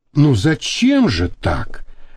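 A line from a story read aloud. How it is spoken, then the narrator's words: Soft. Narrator (Russian): мягко сказала она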